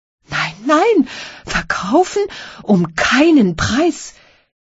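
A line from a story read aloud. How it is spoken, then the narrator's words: Desperate shouting. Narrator (German): schrie verzweifelt der Major Kowalow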